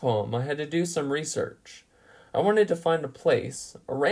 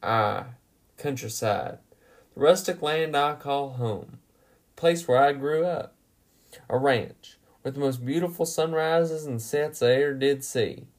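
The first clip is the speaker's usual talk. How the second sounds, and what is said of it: Put-on Texan accent. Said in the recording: “I have to do so in a Texan accent to really give it the full effect”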